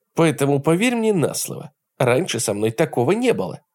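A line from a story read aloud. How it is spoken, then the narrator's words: Plain. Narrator (Russian): сказала Берти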